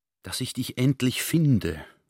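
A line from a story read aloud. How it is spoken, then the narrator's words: Relieved whisper. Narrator (German): flüsterte der General erleichtert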